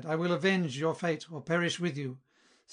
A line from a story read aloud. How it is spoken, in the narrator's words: he cried